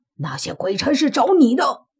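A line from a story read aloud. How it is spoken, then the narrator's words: Angry voice. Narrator (Chinese): 苏三 怒道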